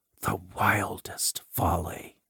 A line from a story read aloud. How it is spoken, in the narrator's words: whispered the same voice